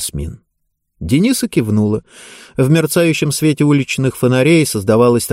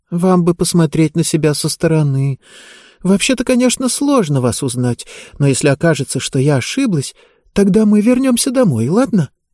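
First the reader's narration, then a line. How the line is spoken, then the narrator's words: Sighing. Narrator (Russian): Ясмин вздохнула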